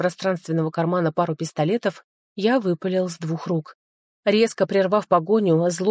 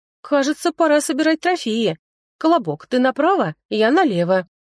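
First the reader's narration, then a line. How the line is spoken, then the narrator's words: Cheerful command. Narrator (Russian): весело приказала она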